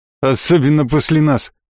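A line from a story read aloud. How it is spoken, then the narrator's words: Snorting. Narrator (Russian): хмыкнул Гудрон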